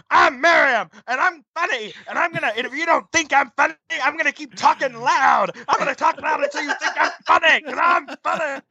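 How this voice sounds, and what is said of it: Mocking loud impression of a friend. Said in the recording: “did an impersonation of me”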